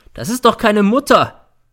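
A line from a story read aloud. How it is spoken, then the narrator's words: Shouting. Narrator (German): schreit er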